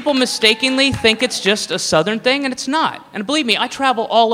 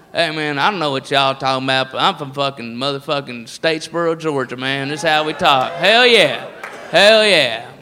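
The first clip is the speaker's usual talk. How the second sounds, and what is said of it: Exaggerated Southern redneck accent. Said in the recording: “the redneck voice is all over the place. And it's not just the South”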